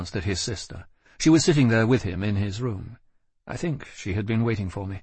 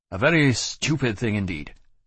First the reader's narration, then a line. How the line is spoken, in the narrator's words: he said, irritably